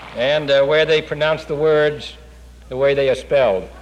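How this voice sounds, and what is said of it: Boston accent. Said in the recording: “a city where my accent is considered normal”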